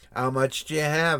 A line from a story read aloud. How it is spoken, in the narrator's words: asked the man